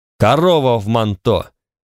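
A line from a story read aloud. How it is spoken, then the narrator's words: Barking shout. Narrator (Russian): рявкнул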